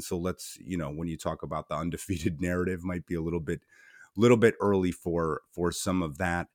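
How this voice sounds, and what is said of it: Strained, hoarse voice. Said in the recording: “kind of losing my voice a little bit here.”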